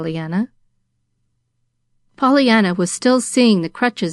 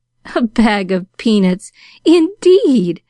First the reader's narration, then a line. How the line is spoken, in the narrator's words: laughed Pollyanna